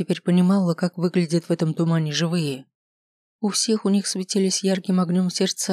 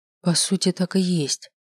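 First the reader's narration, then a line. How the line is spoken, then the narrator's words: Whispered. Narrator (Russian): прошептало весеннее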